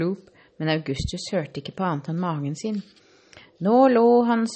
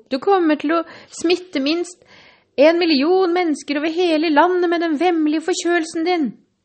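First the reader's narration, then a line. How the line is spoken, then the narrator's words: Shouted. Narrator (Norwegian): ropte fru Gloop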